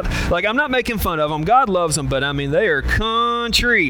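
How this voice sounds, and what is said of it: Southern drawl accent. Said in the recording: “my Southern accent ... Southern drawl”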